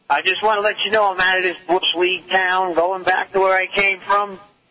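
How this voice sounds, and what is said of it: New York accent. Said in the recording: “your lousy New York accent”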